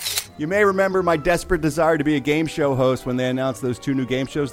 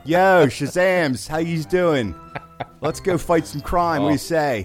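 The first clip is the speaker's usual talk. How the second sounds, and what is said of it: Hard Philadelphia accent, tiger character. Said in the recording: “I want to do the tiger with a real hard Philadelphia accent. ... That'd be an ugly voice to hear for a while.”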